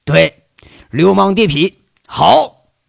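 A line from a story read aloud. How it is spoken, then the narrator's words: Delighted shout. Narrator (Chinese): 吴铁军马上喜形于色，喊了一句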